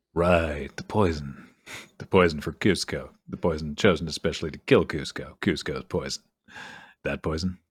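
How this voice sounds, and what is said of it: Imitates another person's voice. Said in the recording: “That's not a bad impression.”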